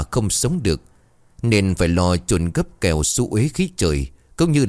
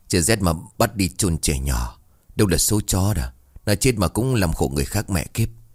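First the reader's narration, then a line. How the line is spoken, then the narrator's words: Young man muttering. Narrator (Vietnamese): Khê trẻ hơn lầm bầm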